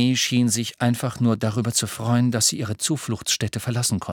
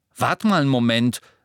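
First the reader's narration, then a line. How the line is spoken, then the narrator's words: Sharp. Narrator (German): sagte Ron scharf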